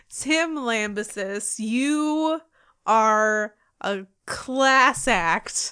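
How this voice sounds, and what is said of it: Heavily sarcastic tone. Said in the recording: “I'm saying that with as much sarcasm as I can possibly muster.”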